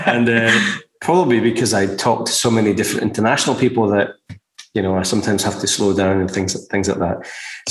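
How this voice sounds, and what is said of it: Soft Scottish accent. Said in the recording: “as you can probably tell from my accent, I'm Scottish. I'm a little bit softer than Scottish ... they call me English because I don't speak proper Scottish”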